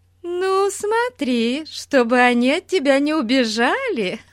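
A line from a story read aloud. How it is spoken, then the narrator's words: Laughing at own joke. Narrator (Russian): Засмеялась она своей собственной шутке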